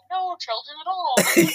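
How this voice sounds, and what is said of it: Put-on Chinese accent. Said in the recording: “your Chinese accent that you do”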